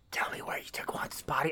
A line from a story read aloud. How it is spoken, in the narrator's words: he whispers, he whispers to his ear